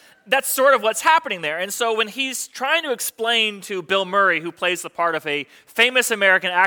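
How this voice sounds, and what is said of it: Usual voice. Nothing is said of it.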